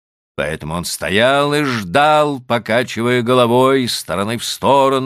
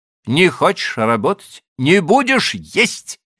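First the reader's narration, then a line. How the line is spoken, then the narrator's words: Angry, curt. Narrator (Russian): сердито отрезал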